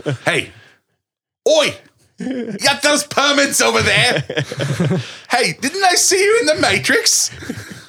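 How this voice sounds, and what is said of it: Bad put-on Australian accent. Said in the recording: “Great accent there. ... just nailing it. ... It slipped into something else that was not Australian. ... like a Monty Python female doing an Australian impression.”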